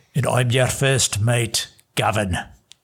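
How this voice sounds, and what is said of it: Pirate caricature accent, near Australian. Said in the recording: “I was just trying my best not to dip into an Australian accent ... It was borderline close ... the pirate accent, or the pirate caricature accent is adjacent to the Australian caricature accent”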